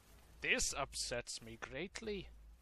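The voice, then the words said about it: Put-on Scottish accent. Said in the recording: “Why are you speaking in a Scottish accent?”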